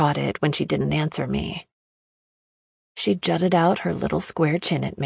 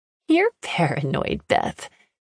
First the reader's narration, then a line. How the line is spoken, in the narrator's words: she laughed